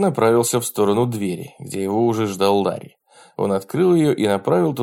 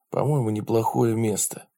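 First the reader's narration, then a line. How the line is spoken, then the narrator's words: Whispered. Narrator (Russian): прошептал он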